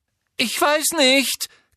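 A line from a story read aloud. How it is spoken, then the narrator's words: Frightened squeak. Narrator (German): quiekte Hermine verängstigt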